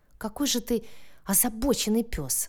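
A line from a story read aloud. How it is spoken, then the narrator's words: Breathed out. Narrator (Russian): выдохнула Соня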